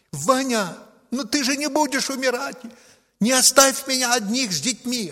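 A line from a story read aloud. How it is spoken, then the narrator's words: Desperate shout. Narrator (Russian): она закричала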